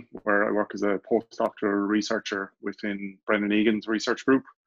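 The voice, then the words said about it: Irish accent. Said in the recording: “as I'm sure many will pick up from my accent, Irish”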